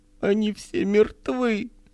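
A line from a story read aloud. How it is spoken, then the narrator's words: Woman speaking suddenly, then sobbing. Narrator (Russian): сказала вдруг женщина и зарыдала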